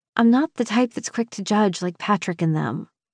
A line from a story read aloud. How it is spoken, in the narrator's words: I mumble